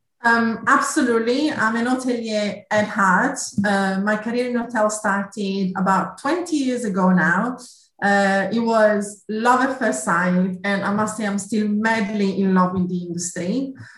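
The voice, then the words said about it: Italian accent. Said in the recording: “You might have gathered from my accent, I'm Italian originally.”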